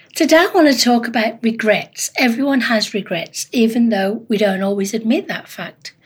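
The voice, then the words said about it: Husky, hoarse voice. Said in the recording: “apologize for my voice... I've had a really bad sinus infection, so I'm a little bit husky”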